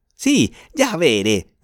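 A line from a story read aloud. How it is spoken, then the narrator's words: Furious shout. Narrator (Spanish): gritó Jorge con los ojos brillantes de furia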